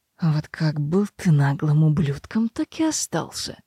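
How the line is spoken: Through gritted teeth. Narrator (Russian): процедил Родерик

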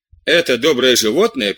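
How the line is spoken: Laughing. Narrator (Russian): прибавила она, смеясь

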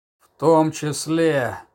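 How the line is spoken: Grim reply. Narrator (Russian): мрачно ответил Тирпиц

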